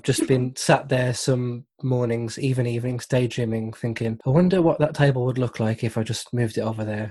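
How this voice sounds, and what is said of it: Wolverhampton accent. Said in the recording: “I was born in Wolverhampton. Apologies for the accent.”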